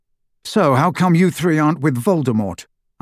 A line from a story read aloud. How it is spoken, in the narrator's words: asked Harry